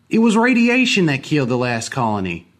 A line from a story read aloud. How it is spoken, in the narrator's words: one man shouted at us